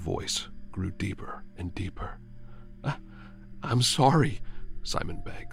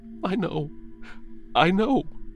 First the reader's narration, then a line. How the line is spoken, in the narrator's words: Simon cries